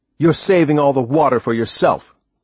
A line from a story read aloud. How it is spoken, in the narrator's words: I yelled over at him